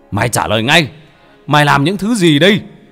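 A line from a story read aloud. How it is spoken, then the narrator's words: Shouting. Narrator (Vietnamese): Ông thầy đang hét lên với gã đàn ông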